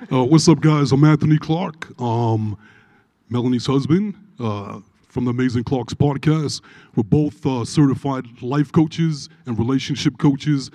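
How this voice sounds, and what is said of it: Brooklyn accent. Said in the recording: “if I sound a little weird, it's not a speech impediment, it's a Brooklyn accent.”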